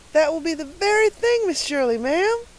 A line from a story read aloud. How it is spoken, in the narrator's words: exclaimed Carlotta the Fourth in rapture